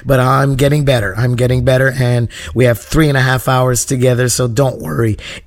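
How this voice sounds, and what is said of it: Hoarse voice from sore throat. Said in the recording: “this sore throat of mine ... my voice is a little hoarse”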